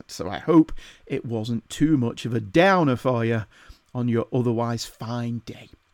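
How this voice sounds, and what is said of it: Northern English accent. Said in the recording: “my wittering northern accent”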